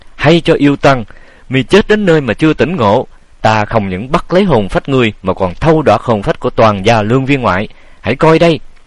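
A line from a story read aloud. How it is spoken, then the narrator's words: Feigned bold scream. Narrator (Vietnamese): thì bủng rủng tay chân, nhưng cũng làm già mà thét lên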